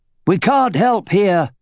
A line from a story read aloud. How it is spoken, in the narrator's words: he shouted